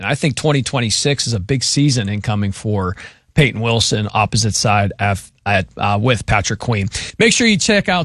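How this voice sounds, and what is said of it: Strained, fading voice. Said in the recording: “I'm losing my voice and I'm choking here at the end”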